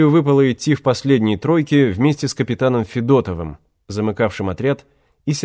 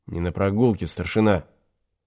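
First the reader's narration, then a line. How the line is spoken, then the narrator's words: Muffled through gas mask. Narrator (Russian): Голос его из-под противогазной маски звучал неожиданно глухо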